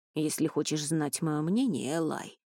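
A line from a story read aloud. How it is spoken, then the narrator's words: Muttering. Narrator (Russian): бормотал он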